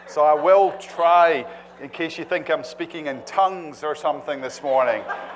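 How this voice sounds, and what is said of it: Scottish brogue. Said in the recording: “I'm conscious of my Scottish brogue.”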